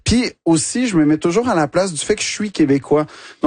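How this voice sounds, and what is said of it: Québécois French accent. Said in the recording (French): “l'accent québécois ... juste le fait que tu le dis avec cet accent”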